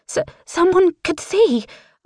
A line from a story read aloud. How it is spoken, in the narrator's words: I stutter